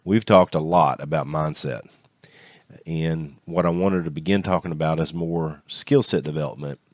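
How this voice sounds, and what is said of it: Congested voice from a cold. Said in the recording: “I have a bit of a cold ... if I sound a little bit under the weather, it's because I'm a little bit under the weather”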